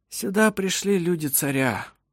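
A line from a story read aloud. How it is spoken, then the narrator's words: Sigh. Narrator (Russian): вздохнул Ировар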